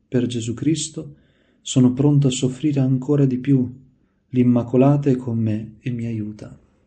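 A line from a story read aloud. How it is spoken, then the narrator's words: Exclamation. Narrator (Italian): Sovente lo udivano esclamare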